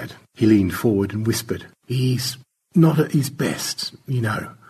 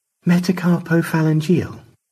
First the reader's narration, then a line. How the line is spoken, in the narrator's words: Stanley sighed